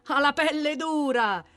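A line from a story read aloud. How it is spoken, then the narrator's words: Shouting from all around. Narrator (Italian): gridano intorno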